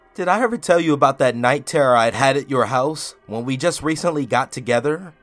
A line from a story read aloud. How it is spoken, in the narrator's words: I asked him with a little laugh